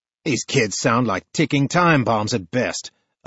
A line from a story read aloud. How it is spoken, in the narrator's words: a man sneers